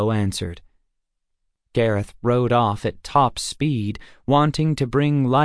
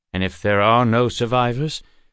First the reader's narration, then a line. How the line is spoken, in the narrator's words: Walsh asked in a troubled voice